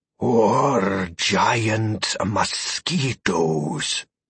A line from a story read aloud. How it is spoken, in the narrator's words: Abaddon added with a throaty chuckle